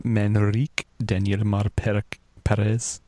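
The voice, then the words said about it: Put-on accent reading a name. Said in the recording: “that's my best accent I can do”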